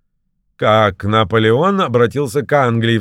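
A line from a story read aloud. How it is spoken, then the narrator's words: Exclaiming with laughter. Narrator (Russian): вскричал он, захохотав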